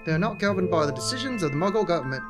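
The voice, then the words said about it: Attempted British accent, low-class sounding. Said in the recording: “That would have been better in a British accent... I can't do a British accent... All right, I'll try... Is that anywhere close to a British accent?... That was pretty, like, low class”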